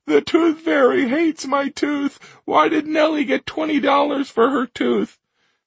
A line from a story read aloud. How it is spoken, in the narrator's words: Through her tears, Maury choked out